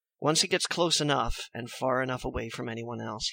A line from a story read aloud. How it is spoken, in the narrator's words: he whispers to you